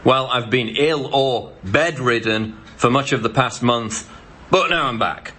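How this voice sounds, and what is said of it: Strange-sounding accent. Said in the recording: “a weirdo with a strange accent ranting about politics”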